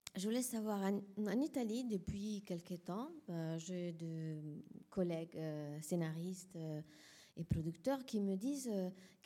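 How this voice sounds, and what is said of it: Italian accent speaking French. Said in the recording (French): “Je suis italienne, donc j'ai un accent.”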